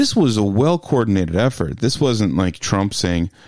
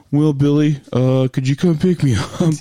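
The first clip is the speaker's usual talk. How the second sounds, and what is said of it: Bad imitation of another person's voice. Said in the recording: “my bad Trump imitation”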